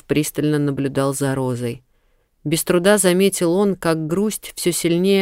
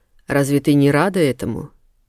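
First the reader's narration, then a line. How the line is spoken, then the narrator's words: Quiet question. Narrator (Russian): тихо спросил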